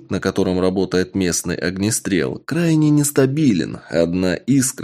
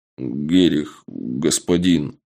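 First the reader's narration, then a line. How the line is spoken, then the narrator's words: Mumbled. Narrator (Russian): промямлил подошедший сапог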